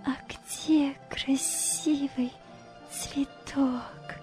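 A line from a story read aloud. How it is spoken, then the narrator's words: Smiling whisper. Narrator (Russian): прошептала, улыбаясь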